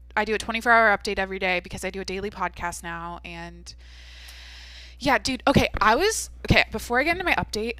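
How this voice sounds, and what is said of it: Creaky vocal fry voice. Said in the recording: “I might have vocal fry. Vocal fry. ... Like the sound of my voice.”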